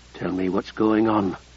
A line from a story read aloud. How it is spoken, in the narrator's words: Vicessa muttered